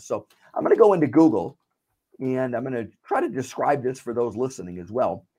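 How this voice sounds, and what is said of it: Sore, slightly ill voice. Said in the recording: “my voice was sore ... I've just got a little bit of illness”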